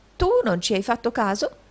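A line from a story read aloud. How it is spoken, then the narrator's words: Exclaimed. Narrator (Italian): esclamò il riscossore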